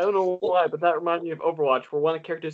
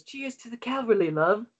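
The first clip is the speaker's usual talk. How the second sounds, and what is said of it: Spot-on put-on British accent. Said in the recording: “that was a spot on British accent.”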